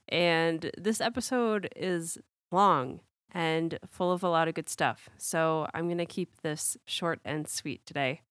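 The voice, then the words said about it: Unwell, strained voice. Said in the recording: “as you can probably hear, my voice has had better days. I've been sick for the past week”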